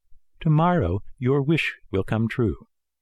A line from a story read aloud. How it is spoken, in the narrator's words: the fairy said to him happily